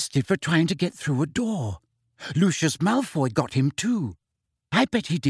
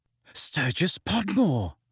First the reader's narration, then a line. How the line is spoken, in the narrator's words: said Hermione breathlessly